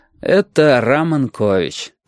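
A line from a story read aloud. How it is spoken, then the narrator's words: Tired. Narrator (Russian): сказал он устало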